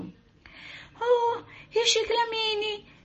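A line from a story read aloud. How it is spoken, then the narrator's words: Joyful lady exclaiming. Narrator (Italian): esclamò una signora tutta giuliva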